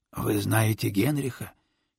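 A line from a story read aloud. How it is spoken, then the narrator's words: Hoarse question. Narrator (Russian): хрипло уточнил Тищенко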